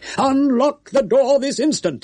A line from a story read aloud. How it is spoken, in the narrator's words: he shouted, with as much air of menacing authority as a hen might assume when screaming through the bars of a coop at a marauding hawk